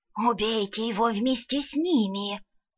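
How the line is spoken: Hissing whisper. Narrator (Russian): Свистящим шепотом посоветовал неприятный тип в мантии

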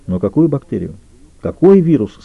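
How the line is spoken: Plain question. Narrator (Russian): спросил Петрович

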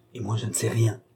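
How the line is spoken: Quiet murmur. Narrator (French): dit tout bas Mme du Barry à Balsamo

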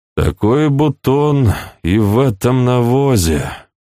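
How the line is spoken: Silent inner sigh. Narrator (Russian): мысленно вздохнул он

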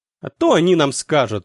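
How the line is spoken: Boy snorting. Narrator (Russian): фыркнул один из пацанов

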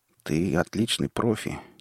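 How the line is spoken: Hesitant start. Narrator (Russian): неуверенно начал японец

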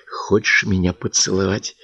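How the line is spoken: Whispered question. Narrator (Russian): спросила шепотом Катя

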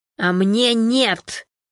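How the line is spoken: Stubborn growl. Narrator (Russian): неуступчиво прорычал Константин

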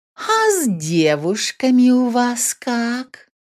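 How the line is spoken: Sly sudden drawl. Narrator (Russian): вдруг протянула моя хитрюга

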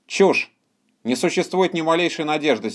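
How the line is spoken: Angry. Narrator (Russian): сердито сказал доктор Хитьер

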